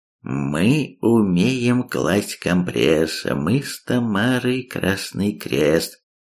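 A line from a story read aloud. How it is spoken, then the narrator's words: Thoughtful drawl. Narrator (Russian): задумчиво протянул Гипс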